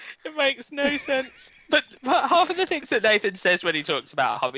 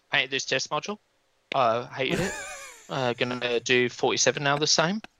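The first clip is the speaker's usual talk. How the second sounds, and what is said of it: Imitates another person's voice. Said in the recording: “That was my Nathan impression... It's a good one.”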